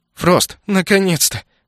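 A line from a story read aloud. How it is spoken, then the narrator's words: Sobbing. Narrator (Russian): всхлипнула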